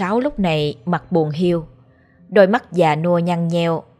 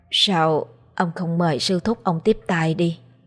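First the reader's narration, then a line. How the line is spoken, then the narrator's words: Trembling old woman's voice. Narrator (Vietnamese): Giọng bà run rẩy nói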